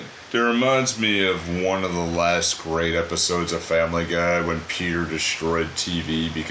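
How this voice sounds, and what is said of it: Usual voice. Nothing is said of it.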